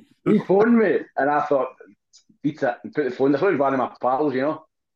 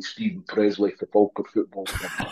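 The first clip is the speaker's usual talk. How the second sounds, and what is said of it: Impression of footballer Stephen Presley. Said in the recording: “his voice ... That's a terrible impression.”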